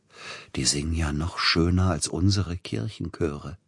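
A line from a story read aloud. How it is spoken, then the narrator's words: Whisper. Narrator (German): flüsterte Peter Iljitsch Silotti zu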